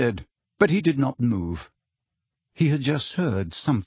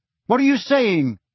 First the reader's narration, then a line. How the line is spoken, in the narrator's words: he said very loudly, so that the words echoed all around the surrounding stone benches